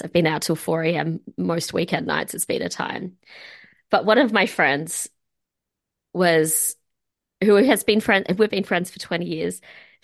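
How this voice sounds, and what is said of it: Tired-sounding voice. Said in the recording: “I'm very tired, if you can hear it in my voice.”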